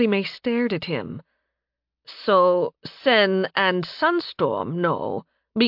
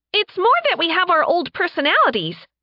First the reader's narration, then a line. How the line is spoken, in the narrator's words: Sen chirped